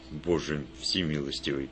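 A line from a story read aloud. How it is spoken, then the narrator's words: Barely audible mutter. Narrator (Russian): буквально остолбенел, едва слышно пробормотав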